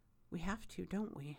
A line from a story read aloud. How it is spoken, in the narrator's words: Aziraphale says quietly